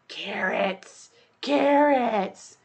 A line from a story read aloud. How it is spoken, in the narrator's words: said in a piercing whisper